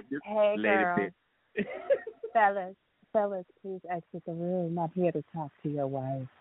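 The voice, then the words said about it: Put-on sexy seductive voice. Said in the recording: “I'm going to have to get my sexy voice on.”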